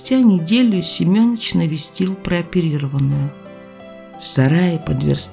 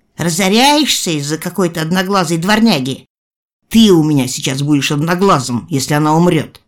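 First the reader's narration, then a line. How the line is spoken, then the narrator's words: Barking shout. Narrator (Russian): рявкнул Николай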